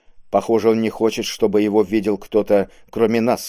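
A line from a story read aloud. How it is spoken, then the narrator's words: Plain. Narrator (Russian): сказал Кийск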